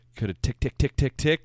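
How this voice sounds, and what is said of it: Imitates a ticking clock. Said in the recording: “that was an impression of a clock”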